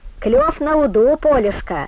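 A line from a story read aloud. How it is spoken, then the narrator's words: Hoarse, cold-chapped woman. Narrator (Russian): хрипло сказала Нюра Питерка, застуженными губами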